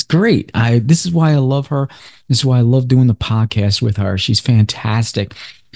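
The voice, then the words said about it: Slightly hoarse voice. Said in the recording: “my voice is a little shot.”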